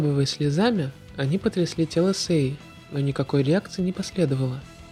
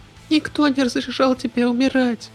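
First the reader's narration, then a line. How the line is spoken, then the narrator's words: Trembling voice. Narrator (Russian): Дрожащим голосом я продолжала говорить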